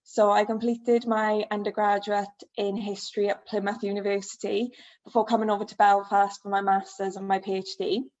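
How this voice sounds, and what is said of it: South Wales accent. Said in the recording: “as you can probably tell by my accent, I'm originally from the South Wales Valleys”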